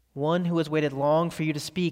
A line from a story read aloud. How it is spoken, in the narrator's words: said the thing